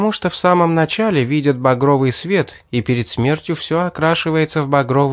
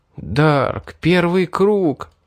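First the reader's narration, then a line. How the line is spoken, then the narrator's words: Despairing whisper. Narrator (Russian): прошептал я, впадая в отчаяние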